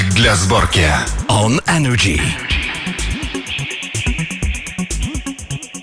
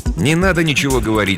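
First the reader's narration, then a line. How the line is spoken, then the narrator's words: Plain. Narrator (Russian): сказал он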